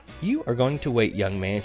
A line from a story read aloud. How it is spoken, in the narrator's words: she says